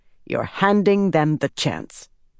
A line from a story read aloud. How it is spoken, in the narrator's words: Birgitta said grimly